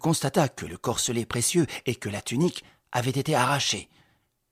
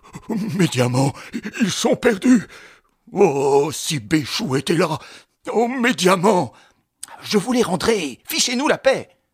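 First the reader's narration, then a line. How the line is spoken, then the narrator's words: Convulsive spasms and moaning. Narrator (French): Régine se convulsait avec des spasmes et des gémissements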